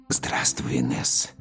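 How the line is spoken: Man's whisper. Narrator (Russian): прошептал мужчина

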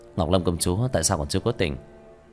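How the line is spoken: Excited muttering. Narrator (Vietnamese): Quá sức hưng phấn, Tiểu Thất lẩm bẩm

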